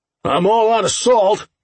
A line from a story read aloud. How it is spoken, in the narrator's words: Owen yelled